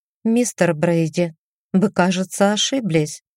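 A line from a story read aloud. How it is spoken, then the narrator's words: Soft, suppressing panic. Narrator (Russian): мягко сказала я, загоняя панику внутрь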